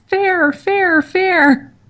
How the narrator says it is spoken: Sam whimpers

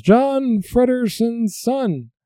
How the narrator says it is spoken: one of the crowd points to Fredder and yells

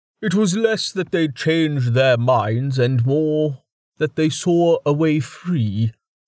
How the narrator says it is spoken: Jameis replied, smiling sadly

